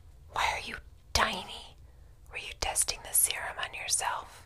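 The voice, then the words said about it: Whispering. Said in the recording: “your voice is so loud. Can you speak a little more softly? ... I'll whisper.”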